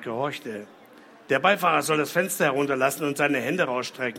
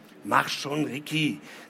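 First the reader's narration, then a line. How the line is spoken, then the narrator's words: Hiss. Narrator (German): zischte Mike ihm zu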